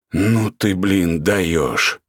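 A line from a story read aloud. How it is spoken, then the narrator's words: Hoarse rasp. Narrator (Russian): только и прохрипел Ратманов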